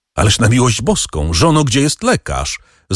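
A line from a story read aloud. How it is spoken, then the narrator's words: Called out. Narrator (Polish): zawołał Wilfort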